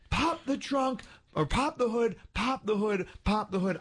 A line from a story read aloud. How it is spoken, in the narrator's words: Screaming